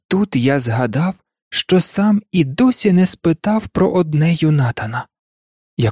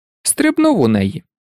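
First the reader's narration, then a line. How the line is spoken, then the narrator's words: Laughing. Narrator (Ukrainian): засміявся він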